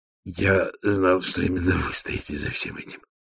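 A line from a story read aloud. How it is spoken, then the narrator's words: Muttered. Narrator (Russian): пробормотал он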